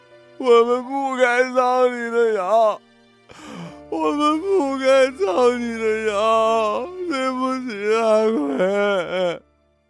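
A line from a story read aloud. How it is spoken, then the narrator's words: Wailing sobs. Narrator (Chinese): 他们…嚎啕大哭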